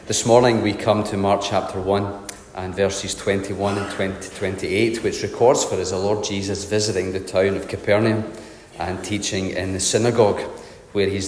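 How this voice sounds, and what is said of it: Voice not at its best. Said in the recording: “my voice is not the best this morning, and hopefully I won't indulge with a coughing fit of some sort”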